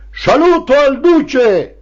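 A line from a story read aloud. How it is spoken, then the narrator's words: Booming shout. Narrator (Italian): Il segretario del partito gridava con voce stentorea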